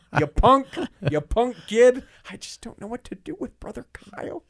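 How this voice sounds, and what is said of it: Impression of someone's mom. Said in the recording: “my best mom impression”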